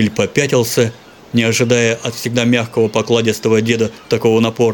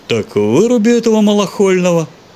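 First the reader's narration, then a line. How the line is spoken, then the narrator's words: Lazy reply. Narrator (Russian): Лениво отозвался Севрюгин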